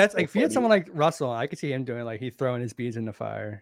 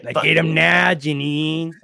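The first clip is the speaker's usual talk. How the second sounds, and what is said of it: Imitates another person's voice. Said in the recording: “good Russell impression.”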